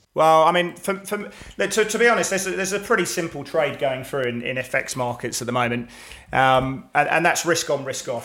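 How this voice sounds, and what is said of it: English accent. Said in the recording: “we've got an English accent there”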